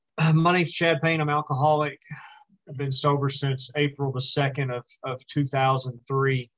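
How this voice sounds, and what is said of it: Slight country accent. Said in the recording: “on recordings, I have kind of a country accent ... you're going to hear a little bit of an accent”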